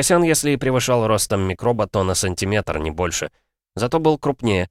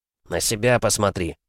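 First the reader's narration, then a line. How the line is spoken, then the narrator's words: Snorting. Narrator (Russian): фыркнул Федя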